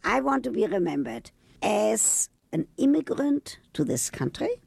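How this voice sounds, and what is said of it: Stern German accent. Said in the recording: “with her stern German accent”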